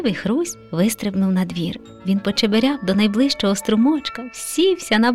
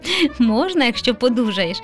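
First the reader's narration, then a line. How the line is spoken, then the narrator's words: Laughing father. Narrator (Ukrainian): засміявся тато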